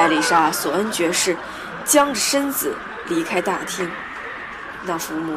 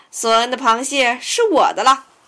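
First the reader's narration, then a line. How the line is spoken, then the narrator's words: Loud announcement. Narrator (Chinese): 他高声宣布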